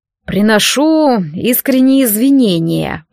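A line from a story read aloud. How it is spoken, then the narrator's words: Through gritted teeth. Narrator (Russian): процедил Риалас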